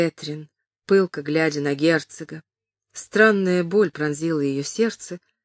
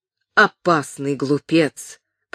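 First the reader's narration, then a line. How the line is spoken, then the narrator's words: Grumbling. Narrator (Russian): проворчал Джон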